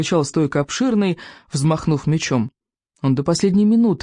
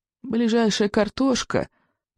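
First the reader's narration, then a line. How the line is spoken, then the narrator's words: Sad old man. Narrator (Russian): печально проговорил старый сморчок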